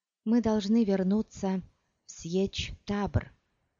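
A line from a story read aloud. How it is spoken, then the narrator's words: Plain. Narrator (Russian): сказала Чани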